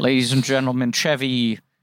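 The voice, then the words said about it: Lorne Michaels impression. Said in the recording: “in Lorne Michaels' voice”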